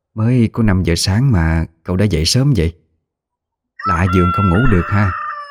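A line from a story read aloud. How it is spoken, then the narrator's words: Old woman asking softly. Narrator (Vietnamese): bà mới nhỏ giọng hỏi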